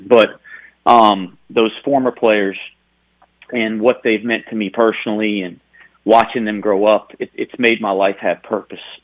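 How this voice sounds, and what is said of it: Emotional, choked-up voice. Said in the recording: “We can hear it in your voice. I'm sorry to make you emotional.”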